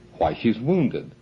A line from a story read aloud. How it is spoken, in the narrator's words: exclaimed the adjutant